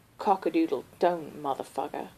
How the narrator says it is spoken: Colin mumbled

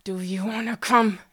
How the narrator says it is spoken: He said through clenched teeth

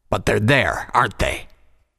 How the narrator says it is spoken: Vanguard snapped

